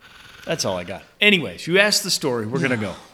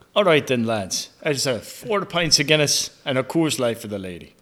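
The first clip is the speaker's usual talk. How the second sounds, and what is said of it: Fake Irish accent. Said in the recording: “mid fake Irish accent ... if that was your accent”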